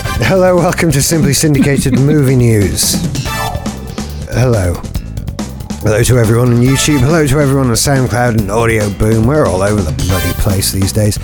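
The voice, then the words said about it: Voice off, lacking its usual bass. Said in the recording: “my voice is a little bit off... All the bass is gone. There's no bass in my voice anymore.”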